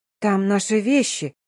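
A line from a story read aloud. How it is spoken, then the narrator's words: Bewildered reminder. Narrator (Russian): растерянно напомнила я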